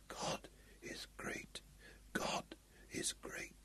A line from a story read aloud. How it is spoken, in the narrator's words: repeating in a monotonous whisper